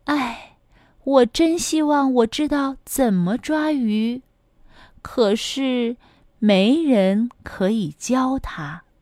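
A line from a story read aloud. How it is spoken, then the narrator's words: Sighing. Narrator (Chinese): 小小熊总是唉声叹气道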